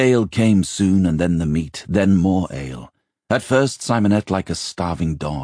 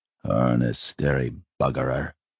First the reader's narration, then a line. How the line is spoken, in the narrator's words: Simon heard him grumble